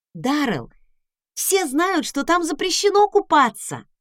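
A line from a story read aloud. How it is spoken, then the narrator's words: Exclaiming. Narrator (Russian): воскликнула я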